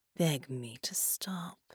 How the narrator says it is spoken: she purred

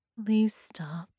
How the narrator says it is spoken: she said, her voice tired and lifeless

